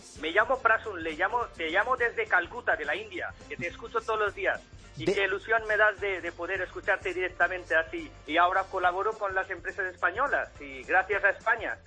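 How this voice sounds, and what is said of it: Spanish with a Galician accent. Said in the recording (Spanish): “un indio con acento gallego”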